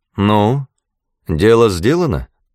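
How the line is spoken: Plain. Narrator (Russian): спросили меня

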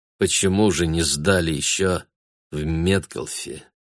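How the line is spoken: Impassive, sad, triumphant question. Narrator (Russian): спросил Бруно так, как мог только он, бесстрастно, печально и при этом торжествующе

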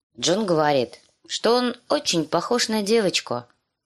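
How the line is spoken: Plain. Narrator (Russian): сказала Ария

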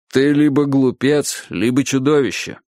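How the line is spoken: Grumbling. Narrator (Russian): пробурчал Клопауций

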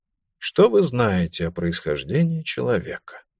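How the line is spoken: Sweet-voiced question. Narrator (Russian): заданный сладким голосом

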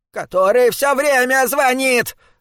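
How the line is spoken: Shouting. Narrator (Russian): закричала мисс Кин

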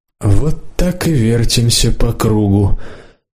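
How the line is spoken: Muffled deputy. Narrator (Russian): глухо сказал депутат Зарудный

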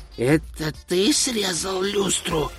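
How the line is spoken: Hissing whisper. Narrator (Russian): Свистящим шепотом осведомился он

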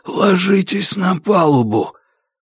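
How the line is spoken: Hoarse rasp. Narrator (Russian): Кай прохрипел

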